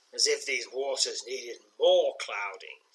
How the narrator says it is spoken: she says

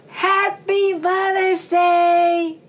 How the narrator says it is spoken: shouted Violet

